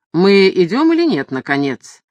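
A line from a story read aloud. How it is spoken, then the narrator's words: Somewhat irritated question. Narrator (Russian): несколько раздраженно спросил лорд Мэридан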